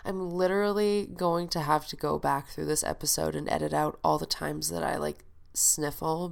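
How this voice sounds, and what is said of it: Very nasal, congested voice. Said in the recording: “I have a head cold, which is why I sound super nasally. ... I'm stuffed up, my throat is sore”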